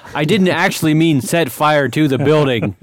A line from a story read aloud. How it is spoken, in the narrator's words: Everin yell